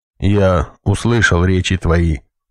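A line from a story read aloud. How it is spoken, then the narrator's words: Grim solemn pronouncement. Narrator (Russian): мрачно изрек хранитель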